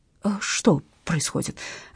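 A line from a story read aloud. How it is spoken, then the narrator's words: Muttering. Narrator (Russian): забормотал Иван Карлович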